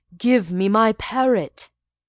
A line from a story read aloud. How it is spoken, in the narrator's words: cried